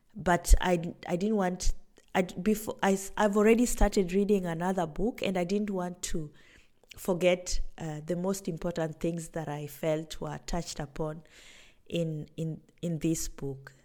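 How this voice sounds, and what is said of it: Raspy voice. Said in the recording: “my voice is a bit raspy because I'm just getting over a cold”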